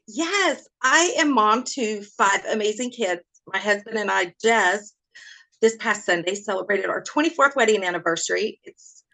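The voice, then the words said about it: Southern American accent. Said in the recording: “I love your accent ... I already feel the Southern hospitality coming through the screen ... I always wanted a Southern accent”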